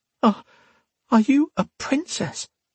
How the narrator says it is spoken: Sonya asked breathlessly

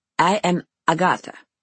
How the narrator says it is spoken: one says

